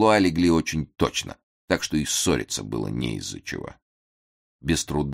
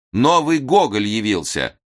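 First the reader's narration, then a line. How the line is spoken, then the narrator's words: Crowd shouting amid applause. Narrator (Russian): Все вскочили, аплодировали стоя, кричали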